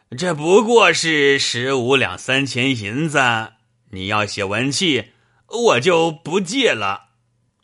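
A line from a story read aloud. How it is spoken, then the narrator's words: Hearty laughter. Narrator (Chinese): 倪二大笑道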